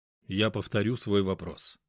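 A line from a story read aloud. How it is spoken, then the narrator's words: Cold voice. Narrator (Russian): холодно произнес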